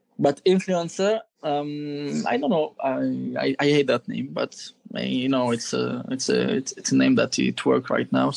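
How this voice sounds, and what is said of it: French accent. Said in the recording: “the French accent for influencer”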